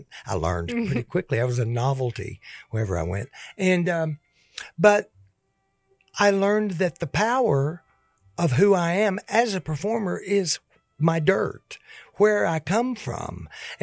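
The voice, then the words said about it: East Tennessee regional accent. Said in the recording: “change my voice, change my accent. Well, I can't get rid of this accent.”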